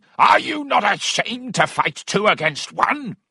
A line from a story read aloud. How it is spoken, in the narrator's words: a fourth person joined in, shouting